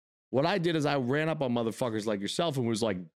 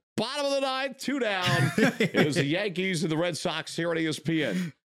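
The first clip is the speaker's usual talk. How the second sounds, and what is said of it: Sports broadcaster announcer voice. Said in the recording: “I would do my broadcaster voice.”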